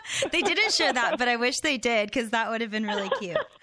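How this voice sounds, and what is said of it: Southern US accent. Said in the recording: “your southern accent”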